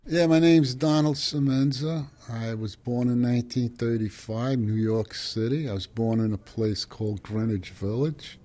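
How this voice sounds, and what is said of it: Old working-class New York accent. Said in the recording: “accent is typical of many of his generation who grew up in working-class Italian-American neighborhoods in Manhattan”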